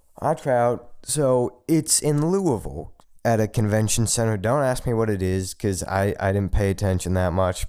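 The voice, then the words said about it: Low, deep bass voice. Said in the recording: “if you can hear by my low, deep voice, I'm a bass”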